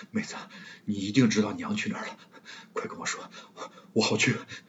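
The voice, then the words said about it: Quiet pleading voice. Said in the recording (Chinese): “小声⟧央求”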